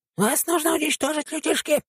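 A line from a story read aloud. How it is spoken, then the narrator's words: Squeaky voice of giant tick. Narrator (Russian): пропищал огромный клещ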